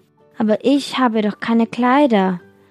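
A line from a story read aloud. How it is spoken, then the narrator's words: Sighing. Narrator (German): seufzte es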